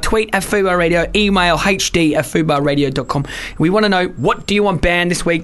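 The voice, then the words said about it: Australian accent. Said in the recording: “I have an Australian accent, but I'm British as well.”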